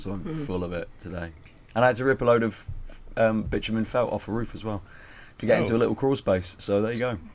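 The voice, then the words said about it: Strained, failing voice. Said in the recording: “My voice is going today.”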